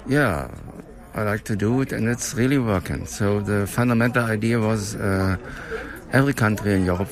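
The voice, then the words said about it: English with a German accent. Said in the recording (Danish): “han taler engelsk med tysk accent”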